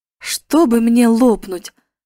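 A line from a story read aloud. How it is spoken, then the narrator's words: Exclaiming. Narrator (Russian): воскликнул Дик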